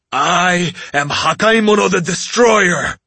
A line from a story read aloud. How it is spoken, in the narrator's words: I growled